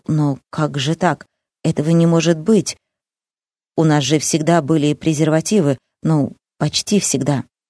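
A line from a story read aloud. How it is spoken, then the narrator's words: Mumbling. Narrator (Russian): Он забормотал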